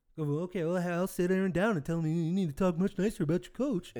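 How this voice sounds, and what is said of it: Impersonation of Mr. Mackey character voice. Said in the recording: “Is that your Mark Murphy impersonation? ... Mr. Mackey / Mark Murphy.”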